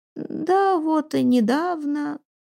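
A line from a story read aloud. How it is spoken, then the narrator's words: Toothless mumbling, reminiscing. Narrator (Russian): Крёка шамкала губами, вспоминая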